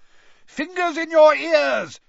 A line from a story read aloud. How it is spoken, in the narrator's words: bellowed Mr